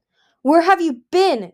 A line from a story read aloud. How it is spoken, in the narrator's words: Gil roared